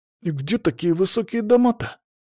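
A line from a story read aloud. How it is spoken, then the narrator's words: Surprised mutter. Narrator (Russian): удивленно пробормотал некромант Жорко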